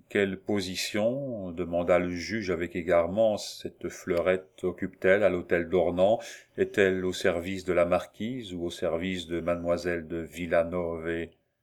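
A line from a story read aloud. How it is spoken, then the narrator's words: Plain. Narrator (French): Maurice répondit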